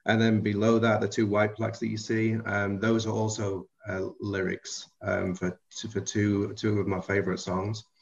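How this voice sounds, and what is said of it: Liverpool-ish English accent. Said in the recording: “if you're trying to figure out the accent, it's kind of Liverpool-ish... I was raised about 7 miles outside of Liverpool”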